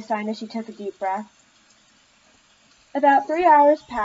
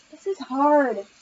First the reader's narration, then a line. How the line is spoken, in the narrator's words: Allie sighed